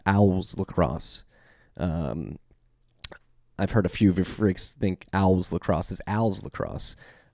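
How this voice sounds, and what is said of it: Philadelphia accent in pronunciation. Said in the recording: “Sorry for my Philly accent coming out in that pronunciation. Pretty poor there.”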